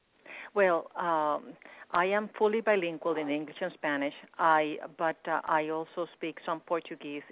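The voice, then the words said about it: Speaks with an accent. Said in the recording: “it sounds like you have an accent.”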